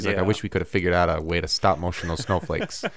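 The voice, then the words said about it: Imitates another person's voice. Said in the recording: “My Jon Favreau impression”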